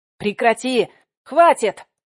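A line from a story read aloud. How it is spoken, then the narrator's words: Yell. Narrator (Russian): заорал Кравченко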